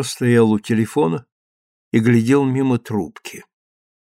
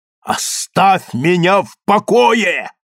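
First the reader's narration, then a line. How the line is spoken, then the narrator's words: Sudden shout. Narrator (Russian): вдруг крикнул Джо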